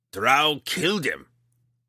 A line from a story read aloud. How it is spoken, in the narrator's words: he growled